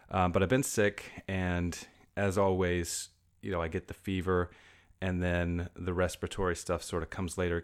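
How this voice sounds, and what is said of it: Voice sounding sick. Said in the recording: “I don't know if you can hear it in my voice, but I've been sick”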